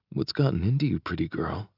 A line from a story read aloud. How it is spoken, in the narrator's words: I murmur